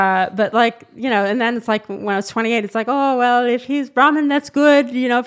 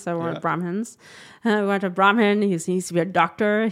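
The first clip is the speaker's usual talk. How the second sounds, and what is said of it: Playful put-on accent. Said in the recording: “I love how you're putting the little accent. ... Oh, the accent too. The accent just flows out of my mouth.”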